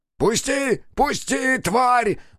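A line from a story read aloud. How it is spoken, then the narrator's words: Furious yell. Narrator (Russian): заорал Тамазов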